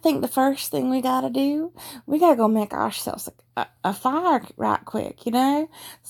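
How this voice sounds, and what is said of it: Energetic put-on Texas Southern accent, poorly done. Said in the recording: “this Texas City Slicker girl is probably going to be really energetic. God, I'm butchering this.”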